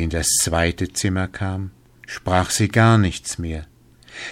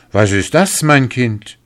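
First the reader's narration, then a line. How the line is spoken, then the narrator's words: Astonished king calling out. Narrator (German): rief der König erstaunt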